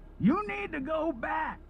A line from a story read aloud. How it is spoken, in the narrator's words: the man shouted